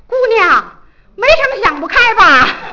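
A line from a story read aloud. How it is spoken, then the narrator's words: Old man calling out. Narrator (Chinese): 遛早的老头喊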